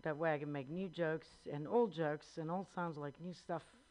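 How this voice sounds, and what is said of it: Strong Italian accent. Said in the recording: “I am from Italy. You can hear my accent... I have a strong accent”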